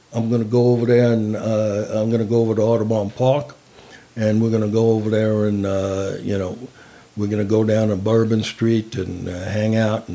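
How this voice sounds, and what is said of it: Imitated New Orleans accent, not Southern. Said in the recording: “But New Orleans is not, doesn't sound Southern. It more sounds like”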